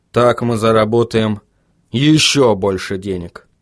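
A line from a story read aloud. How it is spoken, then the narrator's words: Gloomy. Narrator (Russian): мрачно произнес Вильям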